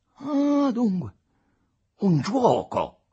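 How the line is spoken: Exclaiming. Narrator (Italian): esclamò Aurelio Costa

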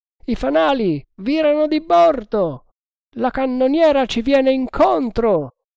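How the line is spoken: Group shouting. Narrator (Italian): gridarono gli altri

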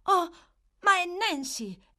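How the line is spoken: Astonished exclamation. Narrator (Italian): esclamò Oliver, in preda a un immenso stupore

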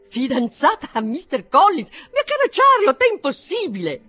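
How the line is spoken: Astonished exclamation. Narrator (Italian): Tale fu dunque il suo stupore da superare a tutta prima i limiti della convenienza, così che non poté trattenersi dall'esclamare

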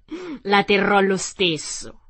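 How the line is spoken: Witch, laughing. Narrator (Italian): disse la strega ridendo

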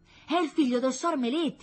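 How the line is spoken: Child exclaiming. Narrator (Italian): esclamò un bambino

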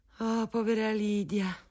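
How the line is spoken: Mother's sigh. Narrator (Italian): sospirava mia madre

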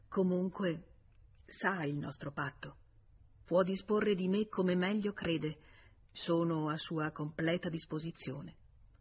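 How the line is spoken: Stammering. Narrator (Italian): George balbettò

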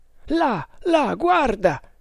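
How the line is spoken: Exclaimed. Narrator (Italian): esclamò un Tug

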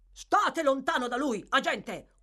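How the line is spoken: Savage furious yell. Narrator (Italian): urlò Fang con foga selvaggia

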